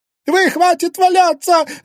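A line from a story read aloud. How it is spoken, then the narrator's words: Shrill shout. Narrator (Russian): визгливо крикнула она приятелям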